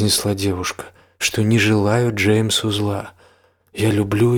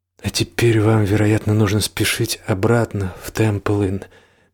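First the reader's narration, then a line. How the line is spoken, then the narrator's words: Soft. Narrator (Russian): мягко сказала Фрэнни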